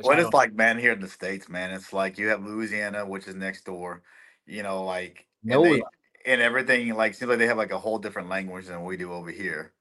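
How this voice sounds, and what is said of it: Texas accent. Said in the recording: “I love your accent. I love that Texas accent.”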